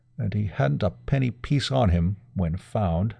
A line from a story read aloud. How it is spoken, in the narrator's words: muttered Rathbury